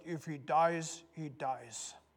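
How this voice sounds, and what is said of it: Put-on Russian accent. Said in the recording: “That was a great Russian accent, wasn't it?”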